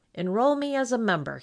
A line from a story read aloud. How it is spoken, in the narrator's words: he said